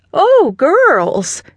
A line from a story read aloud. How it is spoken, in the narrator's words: Nana exclaimed